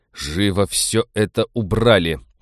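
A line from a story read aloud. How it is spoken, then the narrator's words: Growled. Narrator (Russian): прорычал Станислав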